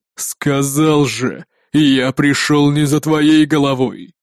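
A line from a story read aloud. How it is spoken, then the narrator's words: Growl. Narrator (Russian): прорычал он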